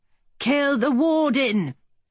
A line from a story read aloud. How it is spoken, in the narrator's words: the Briton shouted